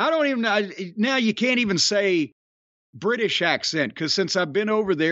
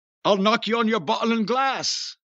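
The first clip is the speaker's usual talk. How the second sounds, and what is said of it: Put-on Cockney accent. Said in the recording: “Maybe we could do it as a, as Cockneys.”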